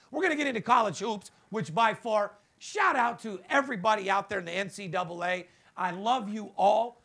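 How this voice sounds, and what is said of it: Hoarse, worn-out voice. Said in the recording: “This is why my voice is gone right now... Got my voice gone”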